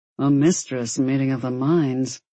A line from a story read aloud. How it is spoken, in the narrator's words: Arius muttered